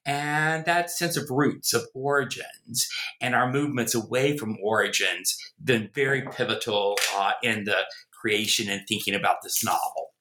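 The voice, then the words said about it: Southern American accent. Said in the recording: “you can tell from my accent, I am a Southerner, born in the American South, in Virginia, grew up in North Carolina. Try as I may, I've never been able to get rid of the accent.”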